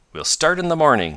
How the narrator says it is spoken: exclaimed the savant, his own cheerful self again

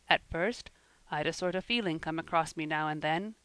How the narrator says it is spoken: he was saying in a subdued tone

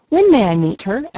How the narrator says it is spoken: asked Leslie eagerly

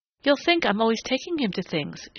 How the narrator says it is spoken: she said brightly

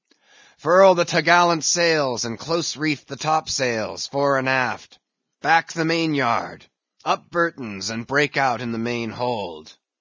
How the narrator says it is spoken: raising his voice to the crew

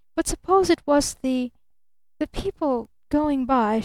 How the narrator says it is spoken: she faltered

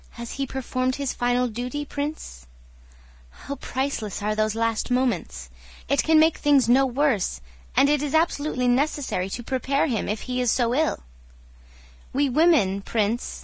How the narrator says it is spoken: she smiled tenderly

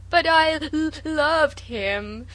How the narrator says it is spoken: sobbed Sarah

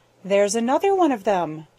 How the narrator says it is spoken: chuckled Jenny

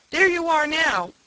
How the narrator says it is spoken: Timothy shouted

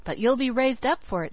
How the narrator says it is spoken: said Felix

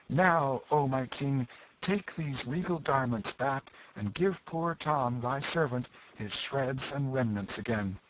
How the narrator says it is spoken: Tom Canty cried out

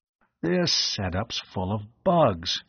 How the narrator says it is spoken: muttered

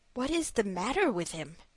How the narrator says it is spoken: asked the prince

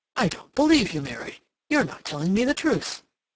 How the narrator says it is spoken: suddenly he exclaimed

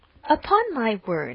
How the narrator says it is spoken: exclaimed Emma

